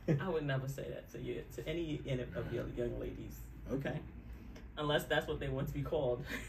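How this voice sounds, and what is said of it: New York accent. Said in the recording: “Maybe it's my New York accent. It came out hose”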